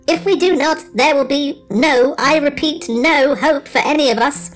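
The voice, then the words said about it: Squeaky mechanical robot voice. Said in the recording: “in its squeaky mechanical voice”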